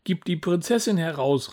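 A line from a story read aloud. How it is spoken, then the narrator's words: Calling out. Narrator (German): rief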